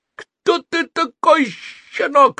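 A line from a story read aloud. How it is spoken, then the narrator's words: Strange shrill shriek. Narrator (Russian): завизжал не своим голосом глыбоподобный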